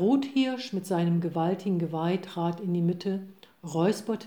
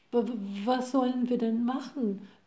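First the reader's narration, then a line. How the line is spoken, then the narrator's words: Stammering. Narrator (German): stotterte der Hase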